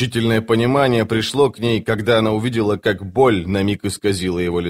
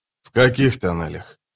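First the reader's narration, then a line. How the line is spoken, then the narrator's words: Quiet question. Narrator (Russian): тихо спросил он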